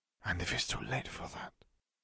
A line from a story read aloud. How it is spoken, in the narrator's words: Fleur whispered